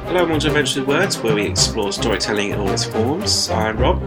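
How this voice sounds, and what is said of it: Congested voice from a cold. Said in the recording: “I have a bit of a cold, as you probably might be able to hear already”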